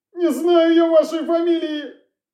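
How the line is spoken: Tramp's whimper. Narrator (Russian): Прохныкал бомж

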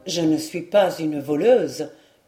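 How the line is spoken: Murmuring. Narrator (French): murmura Madame d'Aumont

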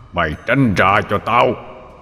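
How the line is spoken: Growling, old man's voice. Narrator (Vietnamese): Tấn gầm gừ rồi nói bằng cái giọng ông già

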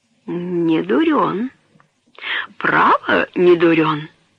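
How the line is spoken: Whisper. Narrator (Russian): прошептала мистерис Дикторн

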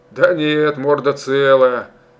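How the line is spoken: Husky chuckling near ear. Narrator (Russian): обрадовал Мишка-медведь, хрипловато хохотнув под ухом

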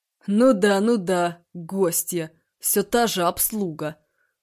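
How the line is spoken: Snorting. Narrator (Russian): хмыкнул Барсуков

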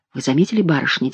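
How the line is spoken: Quiet. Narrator (Russian): тихо сказала она

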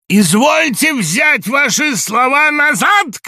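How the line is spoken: Shouted. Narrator (Russian): крикнул Самойленко

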